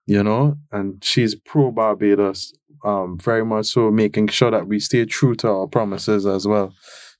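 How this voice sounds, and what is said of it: Sing-song Barbadian accent. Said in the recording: “a sing song accent ... I am a Bajan”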